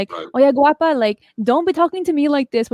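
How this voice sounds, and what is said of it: Imitating mom's thick accent. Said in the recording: “with her really thick accent.”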